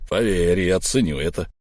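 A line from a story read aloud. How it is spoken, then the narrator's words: Through gritted teeth. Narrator (Russian): процедил Буран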